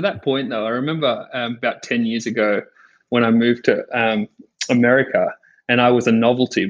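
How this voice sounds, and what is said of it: Australian accent. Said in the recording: “Aussies are everywhere... I love the accent”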